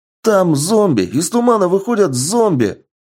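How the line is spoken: Panicked yelling. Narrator (Russian): паникуя, заорал боец

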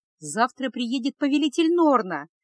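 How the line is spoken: Joyful young priestess. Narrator (Russian): радостно ответила молодая жрица

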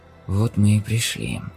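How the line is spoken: Whisper. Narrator (Russian): прошептал Андерс

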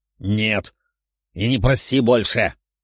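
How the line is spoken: Growl. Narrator (Russian): прорычал он

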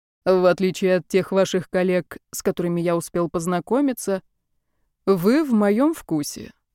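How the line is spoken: Calm reply. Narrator (Russian): спокойно ответил Серафим и пояснил с убийственной откровенностью

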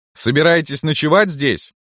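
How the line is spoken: Boy shouting. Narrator (Russian): мальчишка крикнул

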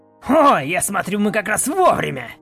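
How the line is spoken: Commander's bark. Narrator (Russian): Рявкнул один из них, ехавший на коне, и, скорее всего, их командир

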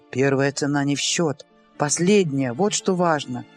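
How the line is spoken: Whisper in ear. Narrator (Russian): прошептал ей на ухо Амос

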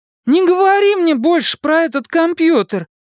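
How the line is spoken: Cry out. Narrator (Russian): вскрикнула Дакота

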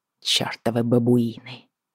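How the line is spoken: Muttering under breath. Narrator (Russian): пробормотала я под нос

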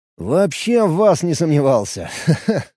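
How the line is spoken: Laughing. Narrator (Russian): Рассмеялся я

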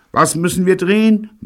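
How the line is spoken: Bellowing. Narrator (German): brüllte Betty

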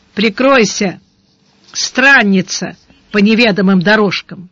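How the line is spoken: Rough bark. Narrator (Russian): Сварог грубо рявкнул

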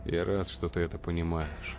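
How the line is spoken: Sighed. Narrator (Russian): вздохнул шеф

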